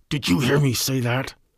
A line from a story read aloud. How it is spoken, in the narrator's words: this kid turned on me and snarled